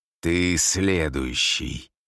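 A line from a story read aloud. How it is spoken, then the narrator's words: Growled. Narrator (Russian): прорычал он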